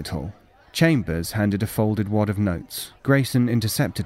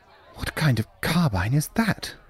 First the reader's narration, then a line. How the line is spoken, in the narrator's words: Chambers whispered